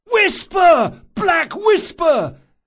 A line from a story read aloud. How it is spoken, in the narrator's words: at the top of his lungs